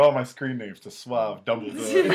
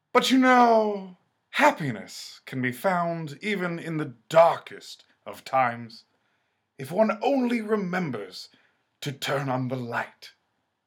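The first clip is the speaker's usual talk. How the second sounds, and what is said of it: Suave Dumbledore impression. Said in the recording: “As Dumbledore ... It was sort of like a suave Dumbledore”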